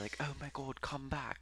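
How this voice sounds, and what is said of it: Put-on British accent. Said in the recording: “Like that's my British accent. ... It's good.”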